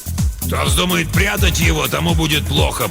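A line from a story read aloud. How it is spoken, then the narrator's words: Growled. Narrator (Russian): прорычал он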